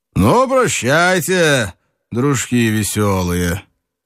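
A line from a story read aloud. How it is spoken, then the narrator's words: Loud cheerful drawling voice. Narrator (Russian): Он еще веселее оглянул гостей, и сказал громко, развалистым голосом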